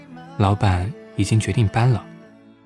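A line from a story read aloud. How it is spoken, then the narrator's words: Soft-spoken. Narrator (Chinese): 草莓 轻声说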